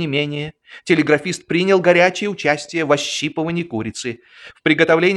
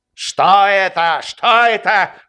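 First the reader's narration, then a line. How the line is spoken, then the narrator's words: Shout. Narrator (Russian): крикнул подпоручик Дуб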